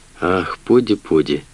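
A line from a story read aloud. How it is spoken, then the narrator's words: Soft speech. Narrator (Russian): мягко проговорил он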